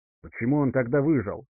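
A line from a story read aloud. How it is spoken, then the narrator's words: Hissed. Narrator (Russian): прошипел Пстинар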